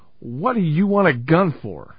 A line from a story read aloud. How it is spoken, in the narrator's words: He tried not to betray his surprise and calmly said